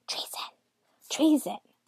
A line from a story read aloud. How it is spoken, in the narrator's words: huddled together and whispered